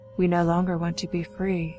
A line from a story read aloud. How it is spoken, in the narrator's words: a single phrase in a calm voice respond